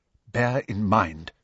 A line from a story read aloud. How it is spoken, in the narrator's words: she said quickly and quietly